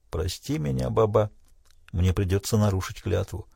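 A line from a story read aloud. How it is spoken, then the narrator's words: Guilty whisper. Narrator (Russian): Он, виновато, даже прошептал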